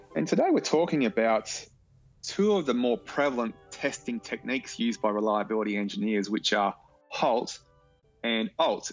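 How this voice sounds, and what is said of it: Strong noticeable accent. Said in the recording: “notwithstanding my outrageous accent”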